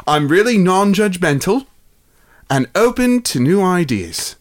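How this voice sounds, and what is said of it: Put-on English accent. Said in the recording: “I should do this in an English accent.”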